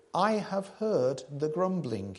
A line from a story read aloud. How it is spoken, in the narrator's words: he says